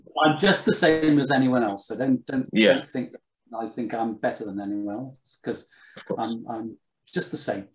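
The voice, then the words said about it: Posh English accent. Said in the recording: “this is why you don't sound northeastern. You sound posh to me.”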